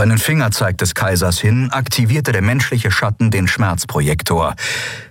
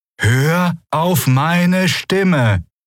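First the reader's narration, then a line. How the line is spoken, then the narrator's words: Called out. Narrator (German): rief Endriel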